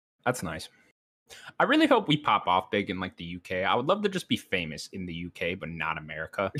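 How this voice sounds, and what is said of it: Put-on accent. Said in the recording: “If you keep doing that accent, we will be.”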